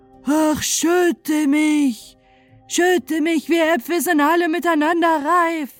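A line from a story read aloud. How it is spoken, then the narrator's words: Calling out. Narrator (German): rief ihm zu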